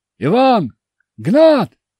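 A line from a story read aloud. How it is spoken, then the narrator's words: Two men shouting. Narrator (Russian): закричали оставшиеся двое охотников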